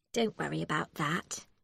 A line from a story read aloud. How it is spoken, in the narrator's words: Becky said sweetly